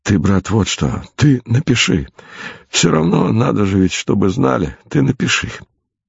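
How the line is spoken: Weak voice. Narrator (Russian): сказал слабым голосом товарищу доктору

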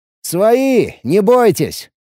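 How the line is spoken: Shout. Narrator (Russian): крикнул я

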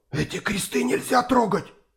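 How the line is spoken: Frightened man's whisper. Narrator (Russian): прошептал перепуганный румын

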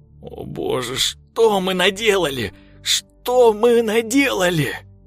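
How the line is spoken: Sobbing. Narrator (Russian): Его сотрясали рыдания

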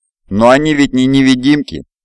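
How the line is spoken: Exclamation. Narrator (Russian): воскликнул Аргонари

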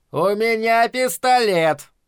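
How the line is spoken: Loud. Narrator (Russian): громко сказал

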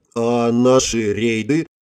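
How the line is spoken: Confused question, mouth full. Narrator (Russian): отправив в рот еще один кусочек торта, растерянно спросила я

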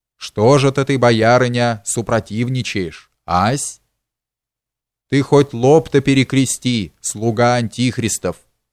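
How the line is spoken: Calm. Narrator (Russian): спокойно заметила ему Морозова

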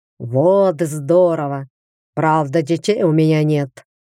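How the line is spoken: Giant's snort. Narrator (Russian): хмыкнул великан

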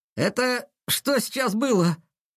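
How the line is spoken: Stunned breathless exclamation. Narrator (Russian): Ошеломленно выдохнул кто-то с задней парты

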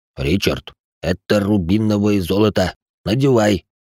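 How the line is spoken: Through gritted teeth. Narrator (Russian): процедил сквозь зубы Салих

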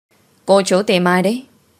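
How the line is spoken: Raised voice, man. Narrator (Vietnamese): Ông ấy cao giọng rồi hỏi

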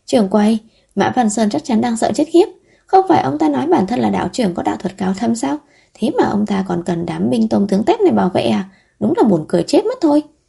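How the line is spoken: Giggling, overjoyed. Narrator (Vietnamese): Vấn Dược cười khúc khích, vui mừng đến mức không đứng thẳng được mà nói

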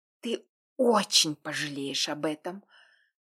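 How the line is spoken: Threatening, breaking whisper. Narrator (Russian): пригрозила срывающимся шепотом

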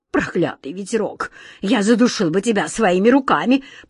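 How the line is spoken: Angry hiss. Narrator (Russian): прошипел главный сборщик улыбок

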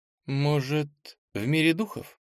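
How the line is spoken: Uncertain suggestion. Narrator (Russian): неуверенно предположила Ира

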